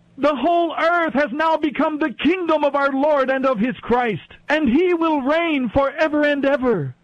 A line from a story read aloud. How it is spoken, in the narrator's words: loud voices shouting in heaven